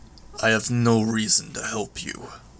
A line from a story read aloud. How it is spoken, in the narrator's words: Lung growled the words, nearly inaudible with the sounds in the distance